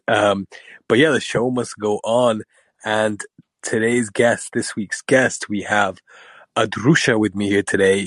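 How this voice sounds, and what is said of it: Raspy voice. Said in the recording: “whilst I have COVID. Um, so bear with my more than usual raspy voice.”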